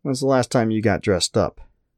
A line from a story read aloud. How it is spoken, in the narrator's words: Sylvie groaned